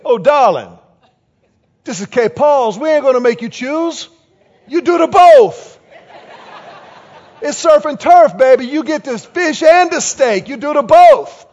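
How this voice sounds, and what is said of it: Thick Cajun accent. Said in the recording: “our waitress had this really thick Cajun accent”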